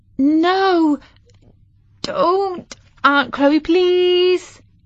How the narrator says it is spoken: pleaded Katie

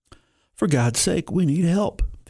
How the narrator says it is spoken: the injured man cried out

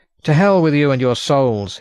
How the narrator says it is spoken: he shouted

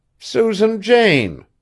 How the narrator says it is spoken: faltered Maud

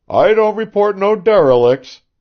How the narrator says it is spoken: shouted John from aloft

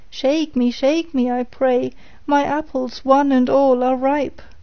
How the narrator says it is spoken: it cried

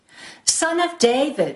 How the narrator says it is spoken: she cried

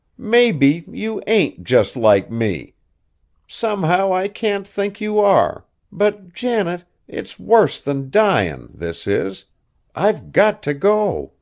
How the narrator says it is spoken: the wretched girl groaned

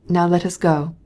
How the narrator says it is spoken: said Vronsky

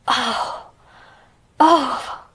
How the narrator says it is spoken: cried Colin out in delight

